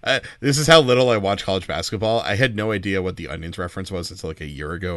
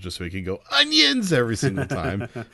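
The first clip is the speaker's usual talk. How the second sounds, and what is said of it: Imitates another person's voice. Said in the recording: “not a bad Raftery impersonation”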